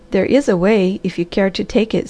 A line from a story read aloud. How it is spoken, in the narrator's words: said the Harvester